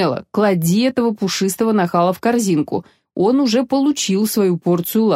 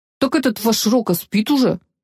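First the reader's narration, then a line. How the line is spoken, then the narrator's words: Grumble. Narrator (Russian): пробурчал Гвида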